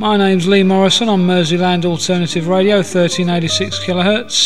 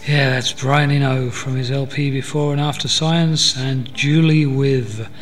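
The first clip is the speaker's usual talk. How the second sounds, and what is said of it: 1970s radio DJ voice. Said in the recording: “I was lapsing into my 70s DJ voice there”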